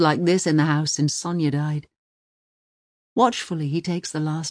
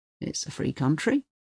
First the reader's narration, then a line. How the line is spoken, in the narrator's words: he mutters